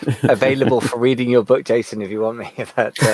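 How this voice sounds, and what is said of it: Usual voice. Nothing is said of it.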